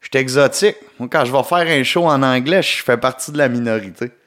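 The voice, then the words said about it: Québécois French accent. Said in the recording (French): “mon accent québécois ... je cache pas mon accent ... c'est mon accent à moi”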